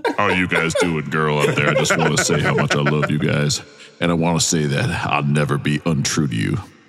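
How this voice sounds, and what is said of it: Deep male voice impression. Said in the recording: “the guy with the deep voice from Boys to Men”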